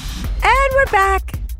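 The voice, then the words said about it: Baby voice. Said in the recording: “That's my baby voice. ... That's also your doggy voice.”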